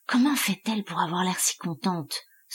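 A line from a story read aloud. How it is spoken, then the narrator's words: Whispered under breath. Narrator (French): souffla Abel à mi-voix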